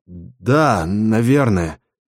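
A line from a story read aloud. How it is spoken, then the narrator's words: Forced out reluctantly. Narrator (Russian): выдавил я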